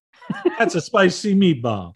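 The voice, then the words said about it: Bad cartoon Italian chef accent. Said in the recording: “you have to do the bad accent ... The obligatory bad Italian ... The cartoon Italian chef”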